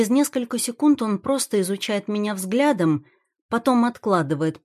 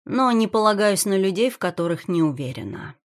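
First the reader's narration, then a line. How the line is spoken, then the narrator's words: Calm reply. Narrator (Russian): спокойно отвечаю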